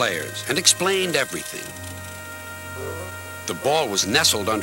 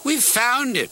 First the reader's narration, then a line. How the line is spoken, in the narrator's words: cried a player